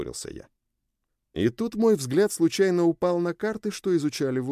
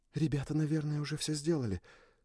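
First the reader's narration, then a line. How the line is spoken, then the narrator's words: Whispered. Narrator (Russian): прошептала Хио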